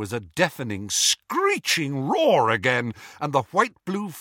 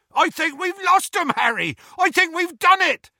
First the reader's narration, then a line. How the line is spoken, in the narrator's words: yelled Hagrid